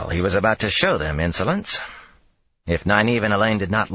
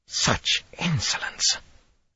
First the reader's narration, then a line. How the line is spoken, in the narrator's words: Saritha muttered